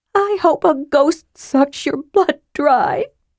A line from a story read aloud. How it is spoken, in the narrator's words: she sobbed angrily